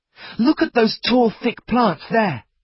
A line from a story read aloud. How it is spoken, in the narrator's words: cried Ernest